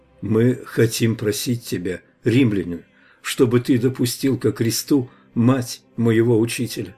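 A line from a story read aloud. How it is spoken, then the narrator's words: Soft, gentle. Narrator (Russian): мягко сказал Иоанн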